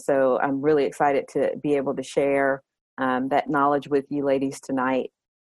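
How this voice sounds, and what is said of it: Southern American accent. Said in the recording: “I am definitely Southern, if you can't hear it in my accent.”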